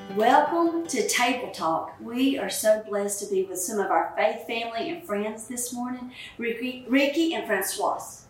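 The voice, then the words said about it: Southern American drawl. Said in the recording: “My southern accent ... her southern drawl”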